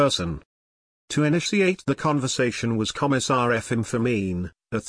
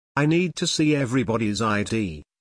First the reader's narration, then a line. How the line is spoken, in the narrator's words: Fermin said